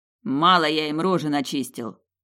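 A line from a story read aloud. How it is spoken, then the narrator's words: Growled. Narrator (Russian): прорычал Тиму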